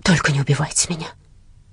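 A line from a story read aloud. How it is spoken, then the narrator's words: Whisper. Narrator (Russian): шептала налетчику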